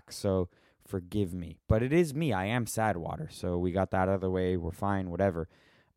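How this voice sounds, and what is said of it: Hoarse, partly lost voice. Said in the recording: “My voice maybe sounds a little bit not like my voice because I lost it a couple nights ago, and uh, it's slowly coming back”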